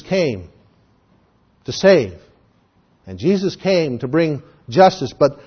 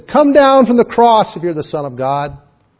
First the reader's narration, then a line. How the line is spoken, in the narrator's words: they mocked him and they challenged him and said